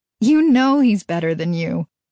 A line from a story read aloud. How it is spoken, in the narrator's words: Mary said with a laugh